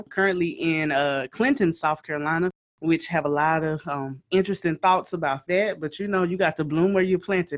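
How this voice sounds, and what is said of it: Southern South Carolina twang. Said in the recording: “I am a native South Carolinian. If you have not heard it in my twang, now you know that that's where the twang comes from.”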